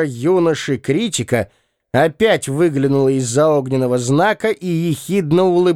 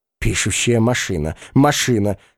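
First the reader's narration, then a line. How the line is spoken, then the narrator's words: Ghost whispering. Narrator (Russian): шептало привидение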